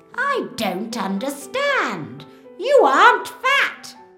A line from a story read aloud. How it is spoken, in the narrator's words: she shouts